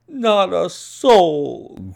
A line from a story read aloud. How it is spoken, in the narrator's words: groaned Hall Pycroft